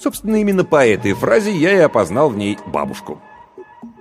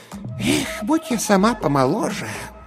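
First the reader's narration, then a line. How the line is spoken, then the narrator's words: Whispered aside. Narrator (Russian): Бабушка прошептала в сторону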